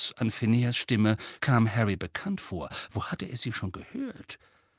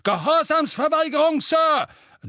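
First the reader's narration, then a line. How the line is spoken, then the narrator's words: Thundering. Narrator (German): donnerte ein korpulenter, rotnasiger Zauberer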